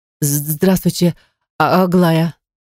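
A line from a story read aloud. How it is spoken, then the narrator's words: Stammering, impressed. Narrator (Russian): начинает заикаться моя подруга, видимо, впечатлившись интерьером комнаты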